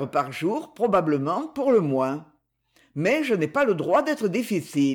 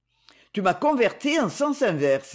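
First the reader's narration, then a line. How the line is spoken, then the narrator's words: Exclaimed. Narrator (French): s'écria son ami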